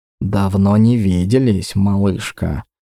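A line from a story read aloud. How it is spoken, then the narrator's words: Barely audible whisper. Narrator (Russian): прошептал, а скорее даже произнес он одними губами, чтобы услышала только я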